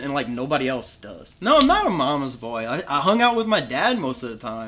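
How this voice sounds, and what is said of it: Thick Louisiana accent. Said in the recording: “a Louisiana accent ... my accent is so thick ... me and my mom have a thick accent”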